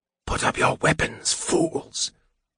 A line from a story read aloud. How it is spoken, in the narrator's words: Raceland said in a piercing whisper